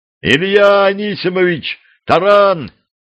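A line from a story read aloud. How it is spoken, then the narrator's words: Loud yell. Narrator (Russian): громко заорал помощник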